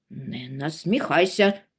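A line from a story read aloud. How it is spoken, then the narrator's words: Angry interruption. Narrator (Ukrainian): сердито урвав братчик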